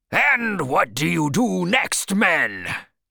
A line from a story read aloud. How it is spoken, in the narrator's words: he cried a little wildly